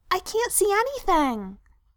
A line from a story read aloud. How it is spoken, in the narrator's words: Frodo piped up, looking fractiously